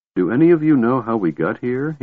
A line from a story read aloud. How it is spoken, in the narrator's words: He asked quietly